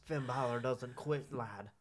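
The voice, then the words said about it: Put-on Irish accent. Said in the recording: “that stupid Irish accent.”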